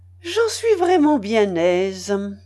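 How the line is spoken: Cheerful. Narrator (French): dit l'évêque gaiement

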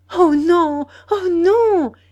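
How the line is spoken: Exclaimed. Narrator (French): s'écria-t-elle

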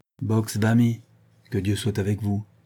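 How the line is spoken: Gruff. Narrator (French): ajouta-t-il d'un ton bourru

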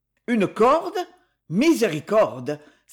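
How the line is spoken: Exclaiming. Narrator (French): s'exclama M

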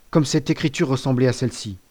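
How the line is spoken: Exclaiming. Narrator (French): s'écria-t-il

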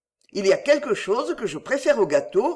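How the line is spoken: Plain. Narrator (French): répondit-il

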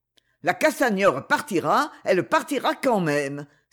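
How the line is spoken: Sudden exclamation. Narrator (French): s'écria soudain Lancevelé

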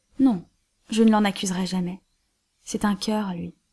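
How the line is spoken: Curt retort. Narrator (French): riposta sèchement le capitaine

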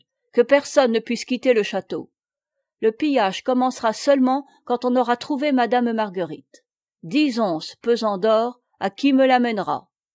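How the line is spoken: Shouted. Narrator (French): cria-t-il

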